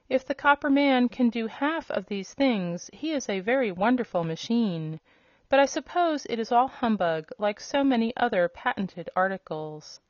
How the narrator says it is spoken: gasped the yellow hen in amazement

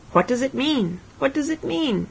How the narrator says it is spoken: cried

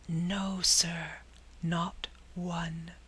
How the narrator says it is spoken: whispered the waiter, putting his mouth nearly close to the warden's ear

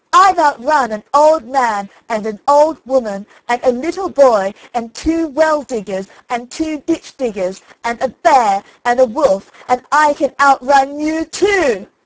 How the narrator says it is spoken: Johnny Cake came up close, screamed out

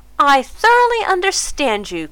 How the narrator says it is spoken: cried Mrs

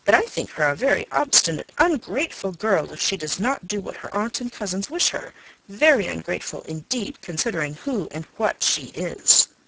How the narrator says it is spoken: Norris sharply

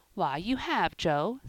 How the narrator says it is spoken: said Ben

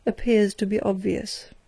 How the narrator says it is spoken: remarked the high official dryly

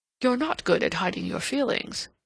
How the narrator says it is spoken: he returned dryly

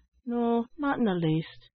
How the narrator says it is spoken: answered the child sadly

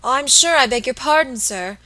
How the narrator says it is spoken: exclaimed the little woman, seeing that she had made some awful mistake

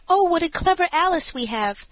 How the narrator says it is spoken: the mother likewise exclaimed

